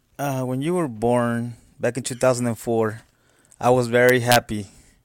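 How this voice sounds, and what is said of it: Mexican Spanish accent. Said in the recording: “I'm originally from Mexico, and that's why I got an accent ... my first language is Spanish”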